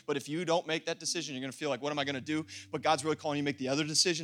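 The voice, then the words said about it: Very fast speech. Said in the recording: “I'm talking really fast.”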